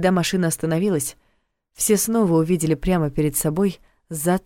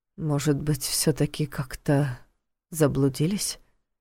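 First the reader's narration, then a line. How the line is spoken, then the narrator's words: Muttering. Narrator (Russian): пробормотал Войтых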